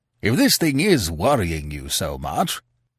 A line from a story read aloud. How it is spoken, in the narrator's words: the Premier said kindly